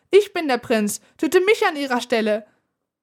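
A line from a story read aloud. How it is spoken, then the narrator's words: High, surprisingly loud voice. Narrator (German): Seine Stimme klang hoch, doch erstaunlich laut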